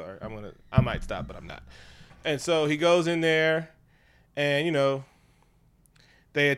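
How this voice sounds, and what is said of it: Usual voice. Nothing is said of it.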